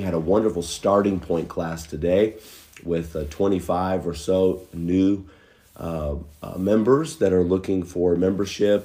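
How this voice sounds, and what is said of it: Weak voice after illness. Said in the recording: “my voice has been a little weak today”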